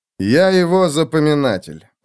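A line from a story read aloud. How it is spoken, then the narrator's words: Cold reply. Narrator (Russian): холодно ответил Феликс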